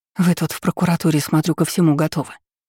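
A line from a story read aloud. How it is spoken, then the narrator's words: Strained, pained exhale. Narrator (Russian): сдавленно выдохнула я, держась под ребрами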